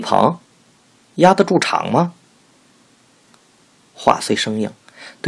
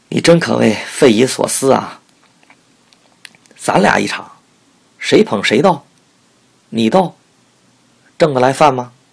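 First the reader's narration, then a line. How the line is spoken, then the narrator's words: After hearty laughter. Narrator (Chinese): 父亲 大笑不止，笑后说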